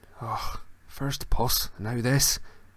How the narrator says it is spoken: muttered Seamus

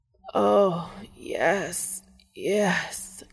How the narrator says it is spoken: Castiel moans, still writhing

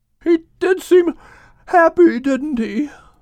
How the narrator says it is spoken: Shalom said with a yawn

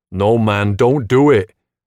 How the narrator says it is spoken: the kid shouts

